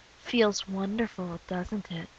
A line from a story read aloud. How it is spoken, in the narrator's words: She whispers